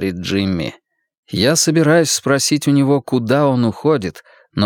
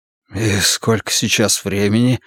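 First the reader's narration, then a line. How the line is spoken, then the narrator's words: Hoarse question. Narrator (Russian): хрипло спросил я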